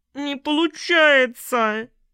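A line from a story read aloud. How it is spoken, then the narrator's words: Loud sob. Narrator (Russian): С громким всхлипом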